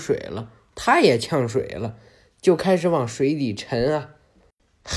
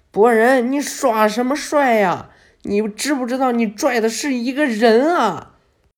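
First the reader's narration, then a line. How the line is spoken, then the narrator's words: Shouting. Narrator (Chinese): 露台还在路面上喊呢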